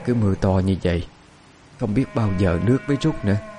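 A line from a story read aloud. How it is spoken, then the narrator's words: Soft. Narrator (Vietnamese): Quan bà nhìn con khẽ nói với chồng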